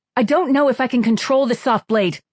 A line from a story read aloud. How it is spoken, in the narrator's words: Kira blurted out